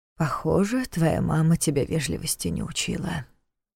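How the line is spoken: Dejected, indifferent voice. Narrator (Russian): сокрушенно констатировал Неф все тем же равнодушным голосом

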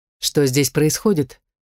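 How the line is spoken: Calm question. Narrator (Russian): спокойно поинтересовался Найтл

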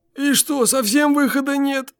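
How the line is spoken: Miserable groan. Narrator (Russian): Тоскливо застонал водитель

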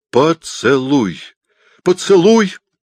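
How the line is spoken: Involuntary cry. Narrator (Russian): вскрикнул я невольно

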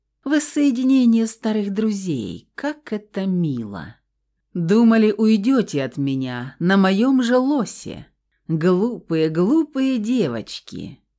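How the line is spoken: Gloating muttering. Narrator (Russian): приговаривал синенький

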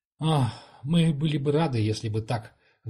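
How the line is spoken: Sighing remark. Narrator (Russian): вздохнув, заметил Канок

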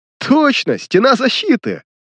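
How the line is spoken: Chuckling. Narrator (Russian): Профессор хохотнул

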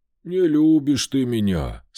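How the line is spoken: Sighing again. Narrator (Russian): снова вздохнул он

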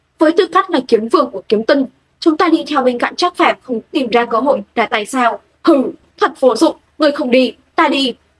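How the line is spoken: Angry. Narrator (Vietnamese): Bát Lý Cảnh Thiên giận dữ nói

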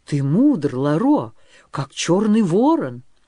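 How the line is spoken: Sincere exclamation. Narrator (Russian): искренне воскликнул молодой вождь

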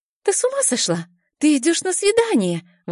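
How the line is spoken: Indignant exclamation. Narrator (Russian): возмущенно восклицает Мила

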